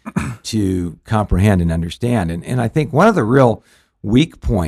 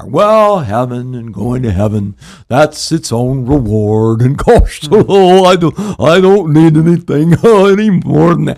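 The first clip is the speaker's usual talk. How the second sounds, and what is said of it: Goofy mock voice. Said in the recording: “good goofy impersonation”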